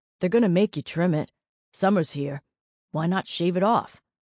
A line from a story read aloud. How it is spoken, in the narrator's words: Jamie grunted